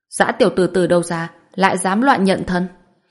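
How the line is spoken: Cold, exasperated rebuke. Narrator (Vietnamese): quý thái hậu lại không thể nhịn, mở miệng lạnh lùng khiển trách nói

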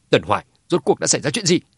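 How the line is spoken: Angry. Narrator (Vietnamese): Hà Chí tức giận nói

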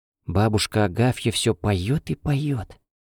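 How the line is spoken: Whispered. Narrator (Russian): шепнул Тарасик

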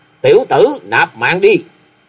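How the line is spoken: Roaring battle cry. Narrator (Vietnamese): Khâu Sĩ Trân, tiếng gầm

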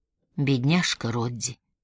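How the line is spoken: Soft. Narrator (Russian): мягко проговорила Элинор

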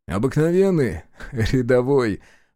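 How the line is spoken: Laughing, then turning sad. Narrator (Russian): рассмеялся Карпин, но тут же погрустнел

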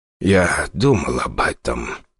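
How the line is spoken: Heavy sigh. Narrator (Russian): тяжело вздохнул Озеров

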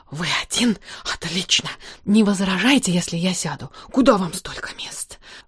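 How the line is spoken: Whispered. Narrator (Russian): Корнет Лимбах прошептал

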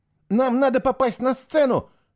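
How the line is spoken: Exclamation. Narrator (Russian): воскликнул Фишер

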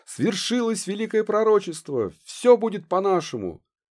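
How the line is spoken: Ecstatic exclamation. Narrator (Russian): Надежда воскликнула в экстазе

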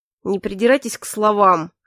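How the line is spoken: Irritated snap. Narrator (Russian): огрызнулся Мэклбери, начиная откровенно раздражаться

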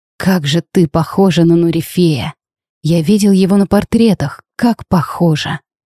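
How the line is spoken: Eager breathy exhale. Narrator (Russian): Выдохнул Орфей с жадностью

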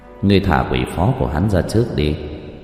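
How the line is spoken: Gentle. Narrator (Vietnamese): Đạo Phong nhẹ nhàng nói

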